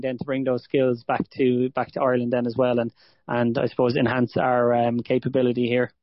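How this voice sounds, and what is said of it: Irish accent. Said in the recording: “my normal Irish buddies ... the accent accent might have been a bit bit a uh, bit too strong and a bit too quick”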